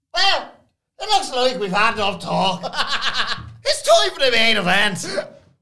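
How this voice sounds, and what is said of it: Irish-accent impression of Kevin Patrick. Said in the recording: “Can you do Kevin Patrick doing Mark Henry? Just the Irish accent.”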